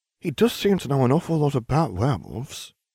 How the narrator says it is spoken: Longbottom mumbled, looking a bit green

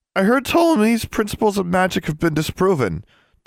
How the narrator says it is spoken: said, in an eager voice that unfortunately chose that moment to crack, making Ptolemy come out as a high-pitched squeak

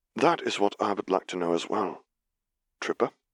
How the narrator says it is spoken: he answered, keeping his tone bland for fear that he would otherwise start hissing too

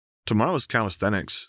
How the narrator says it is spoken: said Othniel

